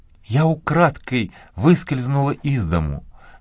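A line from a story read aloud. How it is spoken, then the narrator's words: Almost a whisper. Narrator (Russian): сказала она почти шепотом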